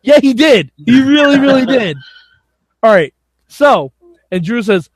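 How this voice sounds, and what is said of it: Usual voice. Nothing is said of it.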